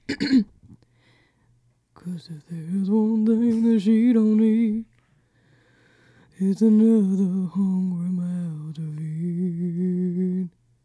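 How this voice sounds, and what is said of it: Imitates another person's singing voice. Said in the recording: “That was my Elvis impersonation, and I think I'm pretty good at it”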